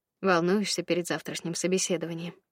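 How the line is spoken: Quiet question. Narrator (Russian): негромко спросил Федя

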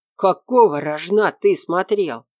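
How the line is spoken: Growling. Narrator (Russian): прорычал он

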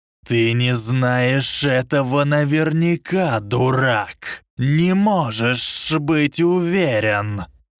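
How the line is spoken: Rising, shrill hiss. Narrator (Russian): Шипение Волан-де-Морта становилось все выше

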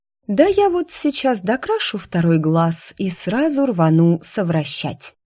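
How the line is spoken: Purring. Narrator (Russian): промурлыкала я

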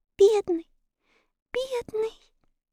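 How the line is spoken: Tearful whisper. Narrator (Russian): прошептала Энни сквозь слезы

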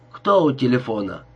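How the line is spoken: Dry question. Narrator (Russian): сухо спросил голос

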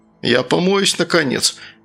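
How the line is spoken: Grumbling mutter. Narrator (Russian): пробурчал Сергей

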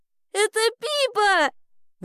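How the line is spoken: Delighted shout. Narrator (Russian): восторженно закричала Элли

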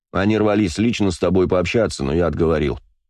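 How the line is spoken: Plain. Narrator (Russian): сказал он

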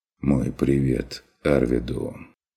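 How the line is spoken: Quiet. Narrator (Russian): Выговорил фон Вегерхоф тихо

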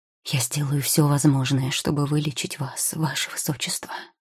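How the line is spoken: Whisper. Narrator (Russian): шепнул он

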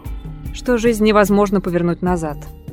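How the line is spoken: Woman muttering. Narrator (Russian): пробормотала Ольга по-русски

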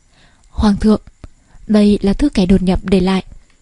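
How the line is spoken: Guard's trembling voice. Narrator (Vietnamese): cấm vệ quân run rẩy nói

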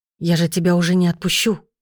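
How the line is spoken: Strangled whisper. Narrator (Russian): проговорил сдавленным шепотом

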